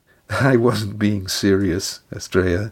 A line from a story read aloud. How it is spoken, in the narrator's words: Lindy chuckled